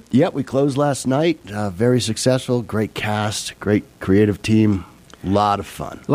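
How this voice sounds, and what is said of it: Weak, hoarse voice with a cold. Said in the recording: “seems to be having a bit of a cold this morning ... my voice is just not there ... Might have just killed the voice”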